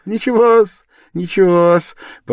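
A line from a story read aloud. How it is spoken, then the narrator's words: Almost joyful. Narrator (Russian): почти радостно подхватил Порфирий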